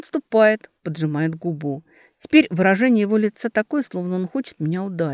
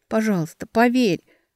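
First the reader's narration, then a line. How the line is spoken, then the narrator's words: Breaking into whisper. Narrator (Russian): срываюсь на шепот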